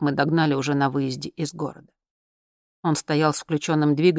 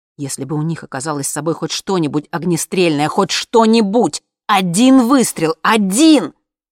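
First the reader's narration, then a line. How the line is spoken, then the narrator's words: Father yelling. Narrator (Russian): заорал папа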